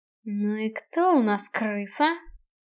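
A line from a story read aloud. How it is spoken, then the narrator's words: Quiet angry question. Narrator (Russian): Тихо и зло спросил Киган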